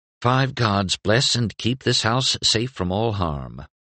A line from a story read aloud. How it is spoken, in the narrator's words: murmured